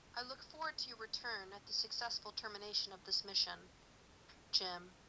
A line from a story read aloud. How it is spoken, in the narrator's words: Spock says quietly